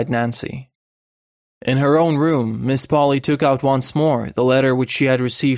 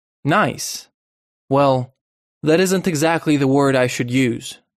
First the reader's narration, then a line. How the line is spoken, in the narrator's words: said Miss Polly stiffly